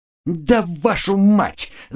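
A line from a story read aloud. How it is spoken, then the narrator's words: Yelling. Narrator (Russian): заорала Женька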